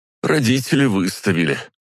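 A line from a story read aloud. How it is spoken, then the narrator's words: Snorting. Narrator (Russian): хмыкнул Гриша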